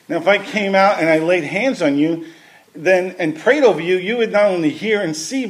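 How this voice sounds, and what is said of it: Speaks with a noticeable accent. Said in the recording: “Making fun of my accent in your head.”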